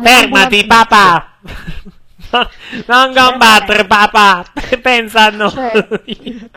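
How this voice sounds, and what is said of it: Put-on Apulian-like Italian accent. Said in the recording (Italian): “l'accento è simile al pugliese”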